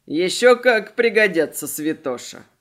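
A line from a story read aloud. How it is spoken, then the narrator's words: Snorting. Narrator (Russian): Хмыкнул Селим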